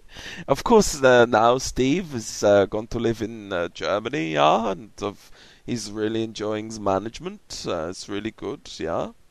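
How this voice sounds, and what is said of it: Funny put-on accent, Swedish-sounding. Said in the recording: “Do a funny accent. ... That sounded a bit Swedish professor, that did. Swedish chef.”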